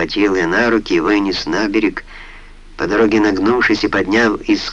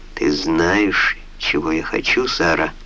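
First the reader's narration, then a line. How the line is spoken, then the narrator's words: Tender. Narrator (Russian): нежно сказал он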